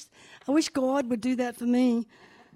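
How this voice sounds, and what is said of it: Imitated New York accent. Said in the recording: “in her New York accent”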